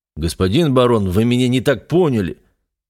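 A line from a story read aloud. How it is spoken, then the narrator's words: Hurried shout from behind. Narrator (Russian): торопливо крикнул Тортфорд мне в спину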